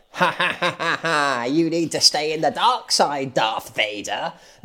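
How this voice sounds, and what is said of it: Imitates the Emperor from Star Wars. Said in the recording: “my Emperor impression”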